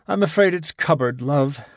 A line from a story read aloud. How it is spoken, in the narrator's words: sighed Gibson